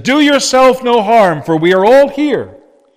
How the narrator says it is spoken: Paul called out with a loud voice, and he said

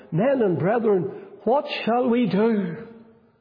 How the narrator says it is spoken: they cried out

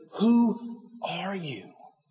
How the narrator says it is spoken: in a whisper, he said

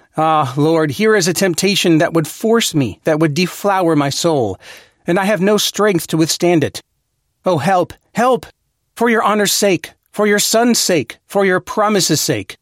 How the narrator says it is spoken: a man cries out and says

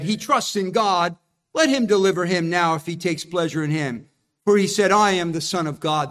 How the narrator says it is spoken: They mocked Jesus

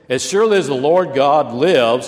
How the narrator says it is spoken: she replied

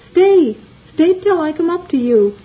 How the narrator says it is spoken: Christian cried

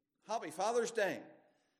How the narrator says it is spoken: one shouted to the other one

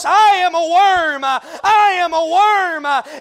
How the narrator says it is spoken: he cried on the cross

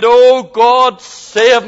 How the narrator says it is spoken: in his half drunken state, he cried out

